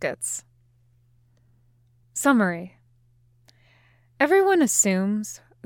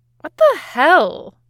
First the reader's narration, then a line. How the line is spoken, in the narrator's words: Nami blurts